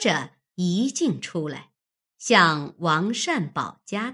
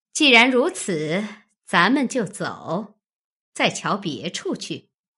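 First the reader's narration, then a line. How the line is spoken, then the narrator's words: Laughing. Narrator (Chinese): 凤姐听了，笑道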